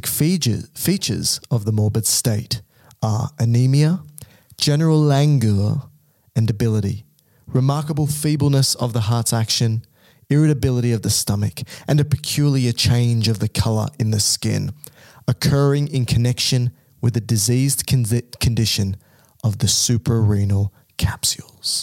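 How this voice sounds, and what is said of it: Poor put-on English accent. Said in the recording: “a couple of mistakes there, and it was a pretty bad English accent.”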